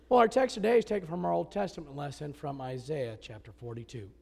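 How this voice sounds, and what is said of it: Sick, strained voice from chest infection. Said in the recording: “even though I sound bad ... today my voice is a little bit better”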